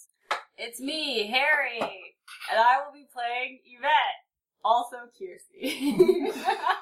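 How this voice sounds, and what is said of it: High-pitched character voice of Yvette. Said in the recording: “your impression of Yvette is really getting out of control... How your voice is getting that high... doing a very, just a, uncanny impression.”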